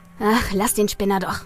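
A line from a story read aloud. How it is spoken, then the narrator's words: Muttering. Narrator (German): murmelte Andy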